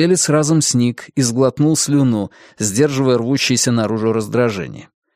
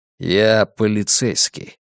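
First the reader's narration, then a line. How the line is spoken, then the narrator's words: Low voice, through teeth. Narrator (Russian): Джан Хаомин понизив голос, процедил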